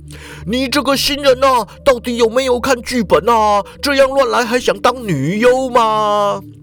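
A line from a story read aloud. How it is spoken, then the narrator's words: Shriek then fierce scolding. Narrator (Chinese): 池田就惨叫一声啊，然后满脸凶狠的指着淑华大骂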